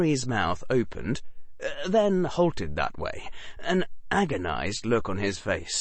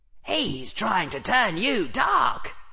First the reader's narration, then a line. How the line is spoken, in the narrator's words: shrieked Gryffindor